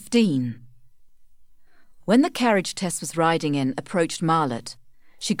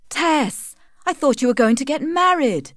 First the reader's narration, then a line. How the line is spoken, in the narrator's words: exclaimed Joan